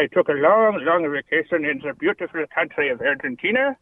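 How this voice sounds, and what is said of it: Put-on foreign accent. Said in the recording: “That's a good accent, though.”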